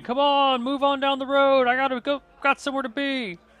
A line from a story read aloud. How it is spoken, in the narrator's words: the carriages behind you and wagons behind you start complaining and shouting